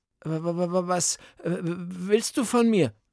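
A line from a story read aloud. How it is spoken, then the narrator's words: Stammering. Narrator (German): stottert Beethoven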